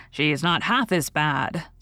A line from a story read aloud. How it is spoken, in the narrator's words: said Alex solemnly